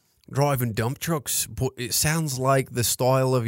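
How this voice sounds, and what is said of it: Usual voice. Nothing is said of it.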